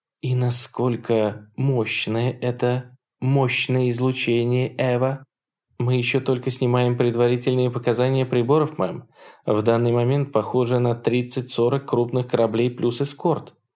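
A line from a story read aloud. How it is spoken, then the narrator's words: Even, level report. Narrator (Russian): ровным голосом сообщила Чандлер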